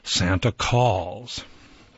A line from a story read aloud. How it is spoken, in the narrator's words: sighed Esther in awe